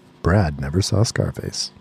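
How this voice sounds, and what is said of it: Dramatic narrator voice. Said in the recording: “narrator voice”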